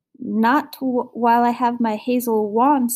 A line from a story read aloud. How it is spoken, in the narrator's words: stammered Marigold